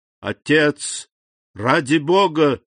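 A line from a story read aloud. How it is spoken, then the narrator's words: Exclamation. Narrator (Russian): воскликнул Максимилиан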